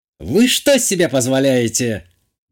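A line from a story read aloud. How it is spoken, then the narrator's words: Sudden menacing growl. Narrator (Russian): Неожиданно грозно рыкнула Натали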